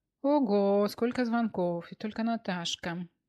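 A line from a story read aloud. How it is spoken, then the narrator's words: Glum mutter. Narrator (Russian): уныло пробормотала Софья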